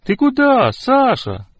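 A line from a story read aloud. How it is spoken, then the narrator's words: Shouted after someone. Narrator (Russian): крикнул ему вслед Петя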